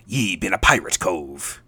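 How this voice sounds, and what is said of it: Pirate voice. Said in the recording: “I maybe should say that like a pirate ... I got to stop doing that voice. That is hurting me.”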